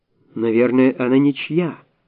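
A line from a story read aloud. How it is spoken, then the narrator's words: Plain. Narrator (Russian): сказала Оксана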